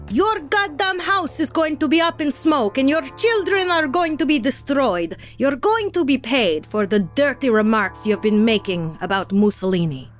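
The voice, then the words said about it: Put-on Italian accent. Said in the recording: “That was my Italian accent”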